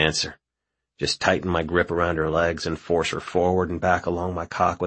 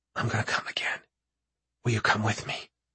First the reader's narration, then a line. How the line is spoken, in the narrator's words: she whispers